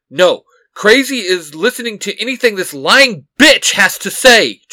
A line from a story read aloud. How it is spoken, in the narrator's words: Jason barks